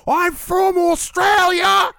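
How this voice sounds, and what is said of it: High-pitched yelled Australian accent. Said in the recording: “Australian accents... it's the height of his voice... Sorry for yelling”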